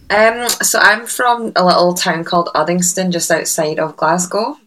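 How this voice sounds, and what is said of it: Scottish accent. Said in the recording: “we can hear the Scottish accent”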